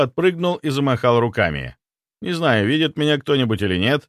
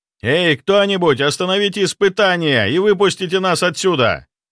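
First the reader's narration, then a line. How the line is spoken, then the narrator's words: Shouting again. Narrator (Russian): вновь закричал я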